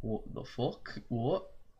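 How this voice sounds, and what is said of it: Put-on British accent. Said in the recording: “That was totally a British accent.”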